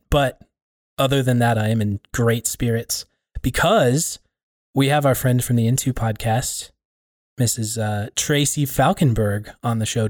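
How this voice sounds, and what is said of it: Tired, worn voice. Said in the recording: “My voice is tired. ... my voice is feeling it.”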